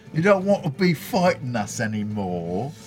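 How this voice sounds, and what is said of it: Speaks in a put-on accent. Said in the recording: “The accent really works.”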